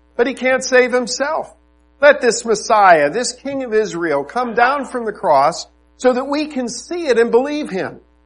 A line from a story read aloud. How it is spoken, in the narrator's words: scoffed